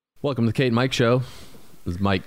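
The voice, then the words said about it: Deep radio announcer voice. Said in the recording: “You're talking like different than usual. ... I'm bringing out my radio voice. ... Yeah, a little deep.”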